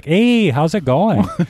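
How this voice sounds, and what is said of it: Wisconsin accent. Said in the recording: “I'm from Wisconsin. I have my accent. It mostly comes out when I drink or when I talk to my family on the phone.”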